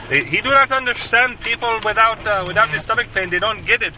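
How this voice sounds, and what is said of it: Put-on Nepali accent, broken English. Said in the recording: “I do this in an accent because I, you know, the broken English just sounds weird if I don't try to at least try the accent ... people from Nepal”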